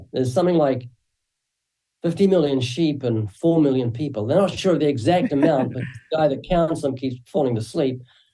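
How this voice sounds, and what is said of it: Slight New Zealand accent. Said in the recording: “you might find a slight accent when I speak. That's because I'm originally from New Zealand been living in the United States since 1989”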